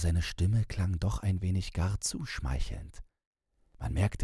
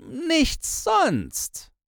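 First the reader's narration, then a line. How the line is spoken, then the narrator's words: Asked. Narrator (German): fragte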